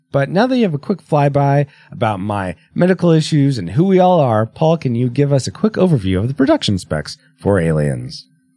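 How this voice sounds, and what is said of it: Slightly rough, cold-affected voice. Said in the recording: “I'm sort of coming off a cold. That's why my voice is a bit rough.”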